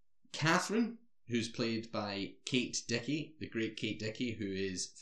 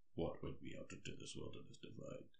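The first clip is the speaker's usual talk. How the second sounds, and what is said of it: Impression of a very deep voice. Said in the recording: “probably the deepest voice I've ever heard... That's my impression.”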